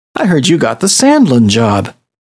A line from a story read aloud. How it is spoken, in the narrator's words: Sarah said